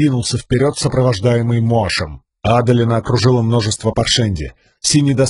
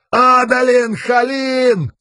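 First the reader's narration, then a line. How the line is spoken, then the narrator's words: Yelling. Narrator (Russian): заорал он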